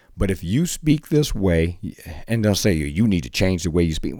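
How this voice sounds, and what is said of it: Slight foreign accent. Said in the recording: “Do I have a little accent like Arnold? ... Yes.”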